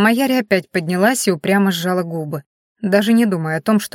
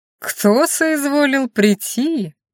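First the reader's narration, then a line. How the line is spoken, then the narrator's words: Mocking singsong. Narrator (Russian): насмешливо пропел Викон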